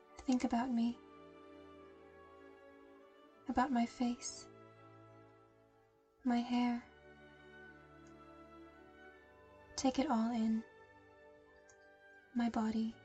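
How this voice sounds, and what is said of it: Sweet, soft voice. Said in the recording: “My voice is so sweet, soft.”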